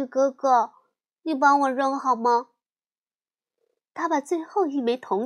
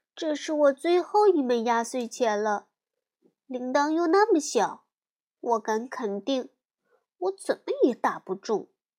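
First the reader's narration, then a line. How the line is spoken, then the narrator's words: Mournful lament. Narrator (Chinese): 美丽哀叹地说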